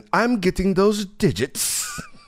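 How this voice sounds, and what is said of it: Random put-on accent. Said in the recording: “he just goes into a random accent.”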